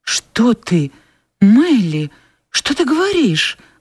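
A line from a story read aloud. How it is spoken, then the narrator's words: Exclaimed. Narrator (Russian): воскликнула Скарлетт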